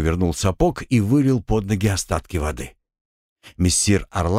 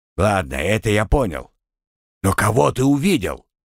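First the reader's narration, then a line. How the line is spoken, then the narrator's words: Snort. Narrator (Russian): Маг хмыкнул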